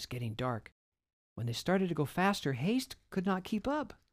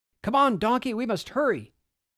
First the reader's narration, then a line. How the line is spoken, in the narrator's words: Joseph shouted